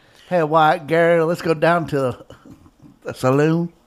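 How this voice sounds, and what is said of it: Put-on Texas accent. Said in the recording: “That's my Texas.”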